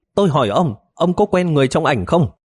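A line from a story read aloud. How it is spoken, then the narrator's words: Stern shouted question. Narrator (Vietnamese): Ngô Tú Mẫn uy nghiêm quát hỏi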